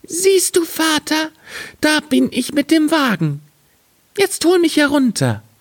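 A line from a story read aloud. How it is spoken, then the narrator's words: Calling out. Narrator (German): rief er ihm zu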